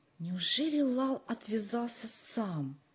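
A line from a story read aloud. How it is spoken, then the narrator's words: Whispered question. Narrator (Russian): шепотом спросил Джо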